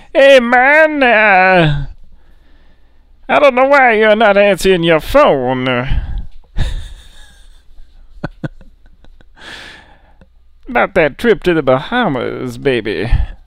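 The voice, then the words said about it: Imitates another person's voice. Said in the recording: “a Sammy Davis Jr. impersonator”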